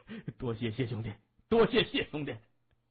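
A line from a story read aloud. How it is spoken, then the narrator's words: Elated, eager thanks. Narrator (Chinese): 精神大振 急忙 满面笑容的说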